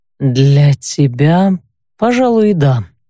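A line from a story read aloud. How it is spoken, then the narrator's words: Drawling. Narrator (Russian): протянул тот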